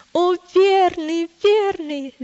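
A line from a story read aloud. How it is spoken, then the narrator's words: Shouting again. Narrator (Russian): и он опять закричал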